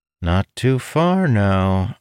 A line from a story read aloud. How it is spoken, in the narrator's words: Amandal said in a flirtatious tone